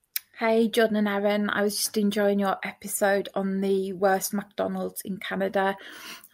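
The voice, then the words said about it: British accent. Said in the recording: “I'm guessing UK... She has an amazing accent”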